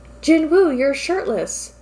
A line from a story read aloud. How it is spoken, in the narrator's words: Dongmin exclaimed